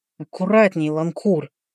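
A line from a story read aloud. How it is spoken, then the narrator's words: Quiet speech. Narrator (Russian): тихо проговорил Эндрю Синклер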